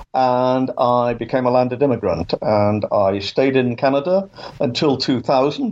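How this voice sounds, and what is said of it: English accent. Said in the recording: “as you can tell from my accent, I, I was born in England and I grew up there.”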